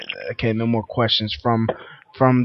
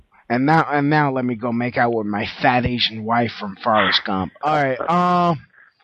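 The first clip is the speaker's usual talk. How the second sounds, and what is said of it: Imitates another person's voice, badly. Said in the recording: “my Gary Sinise impression... it's horrible, I know.”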